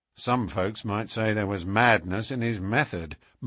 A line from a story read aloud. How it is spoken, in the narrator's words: muttered the inspector